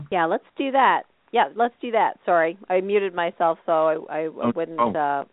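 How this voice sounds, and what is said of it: Raspy voice. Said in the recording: “my raspy voice ... we love your raspy voice”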